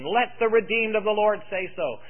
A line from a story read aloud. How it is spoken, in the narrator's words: They shouted in anticipation